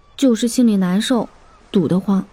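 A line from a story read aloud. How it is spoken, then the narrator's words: Soft, quiet. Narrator (Chinese): 林阳……只是轻声说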